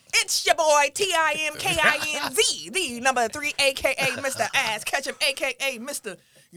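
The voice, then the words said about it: Imitates another person's voice. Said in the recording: “do my best Tim impression”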